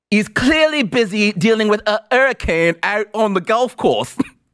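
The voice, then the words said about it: Bad put-on British accent. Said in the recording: “That was awful. That was the worst British accent I think I've ever done”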